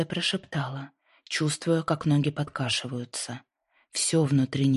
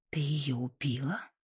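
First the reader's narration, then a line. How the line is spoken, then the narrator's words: Whisper. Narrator (Russian): прошептала Лайза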